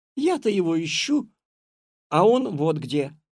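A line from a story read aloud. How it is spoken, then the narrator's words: Joyful exclamation. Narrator (Russian): радостно воскликнула Катя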